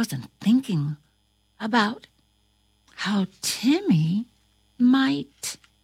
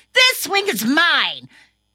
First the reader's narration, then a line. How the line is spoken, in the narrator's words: he got angry and yelled